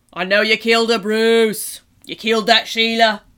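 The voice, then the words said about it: Put-on Australian accent. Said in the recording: “speaking with an Australian accent”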